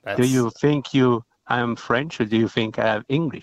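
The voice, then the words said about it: French accent. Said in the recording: “It's a real French accent ... It is a real French accent.”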